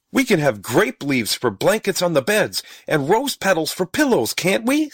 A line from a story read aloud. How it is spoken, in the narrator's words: said Stubby excitedly